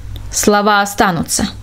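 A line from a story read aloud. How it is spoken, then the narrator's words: Sharp interruption. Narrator (Russian): резко перебил он ее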